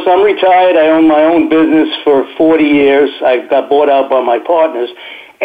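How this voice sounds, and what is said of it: New York accent. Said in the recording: “my accent ... I got a very distinctive voice. Whenever I call somebody, they say, "Oh, you live in New York, don't you?"”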